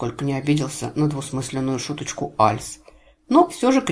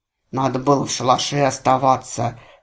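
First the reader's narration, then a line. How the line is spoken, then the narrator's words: Mournful grumbling from behind. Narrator (Russian): заунывно бурчал у меня за спиной Гур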